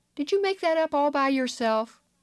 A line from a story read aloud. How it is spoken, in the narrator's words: they ask sweetly